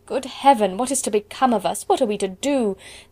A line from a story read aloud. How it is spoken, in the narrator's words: would often exclaim in the bitterness of woe